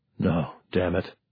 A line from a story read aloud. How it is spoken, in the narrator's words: Harvey muttered